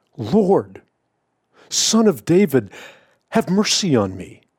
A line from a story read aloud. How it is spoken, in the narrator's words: the Canaanite woman who cried out